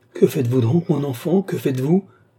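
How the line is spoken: Exclaimed. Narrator (French): s'écria madame Louise

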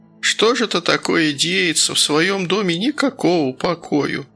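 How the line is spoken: Upset whimpering. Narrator (Russian): расстроенно хныкала Глафира Пафнутьевна

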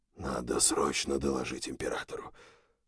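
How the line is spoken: Whispered repetition, general. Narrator (Russian): шепотом повторил генерал Грегсон

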